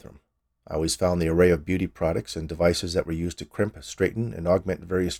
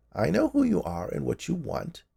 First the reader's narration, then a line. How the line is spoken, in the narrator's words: she said in a creaky voice